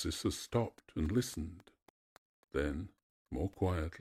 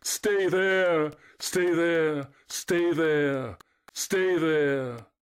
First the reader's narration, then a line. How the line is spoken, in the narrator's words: Echo cried back, weeping to utter it